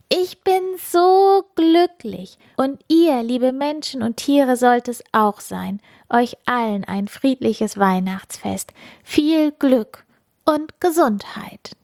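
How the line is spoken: Loud call into night. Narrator (German): Funkieler rief laut in den Nachthimmel

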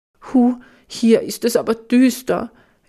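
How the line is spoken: Whining. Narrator (German): jammert Flux

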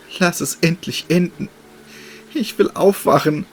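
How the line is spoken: Girl pleading, holding back tears. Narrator (German): flehte das Mädchen und verkniff sich schwermütig die Tränen

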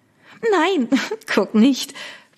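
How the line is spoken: Giggling. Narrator (German): Victoria kicherte

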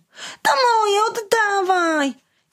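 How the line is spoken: Boy shouting. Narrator (Polish): bawiący się obok chłopiec krzyknął

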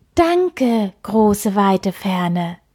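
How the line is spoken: Called out. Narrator (German): rief Kai

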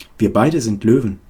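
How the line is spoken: Plain. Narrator (German): sagte Maria

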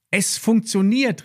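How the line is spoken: Called out. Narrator (German): rief Lilli

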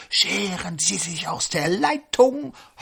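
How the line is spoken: Ghostly breath. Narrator (German): Das Gespenst haucht

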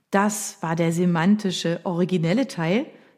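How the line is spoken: Plain. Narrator (German): sagte Rita

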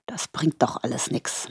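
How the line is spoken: Murmuring. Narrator (German): murmelte er schließlich

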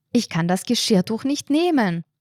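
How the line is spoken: Called out angrily. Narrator (German): rief die blaue Frau verärgert

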